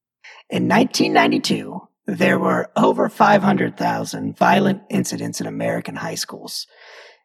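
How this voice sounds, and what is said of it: Robotic computer-style voice. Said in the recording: “in my best computer voice”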